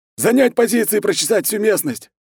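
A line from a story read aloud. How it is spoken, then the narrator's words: Barked command. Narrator (Russian): Уже бойцам рявкнул комбат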